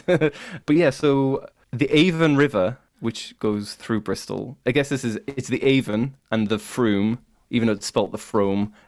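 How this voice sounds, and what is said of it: Northern English accent. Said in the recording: “I have a very northern accent. My accent is like the Starks from Game of Thrones, so I exaggerate my U's ... British accents”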